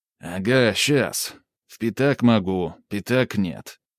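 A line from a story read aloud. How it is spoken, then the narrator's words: Gloomy, through gritted teeth. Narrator (Russian): мрачно процедил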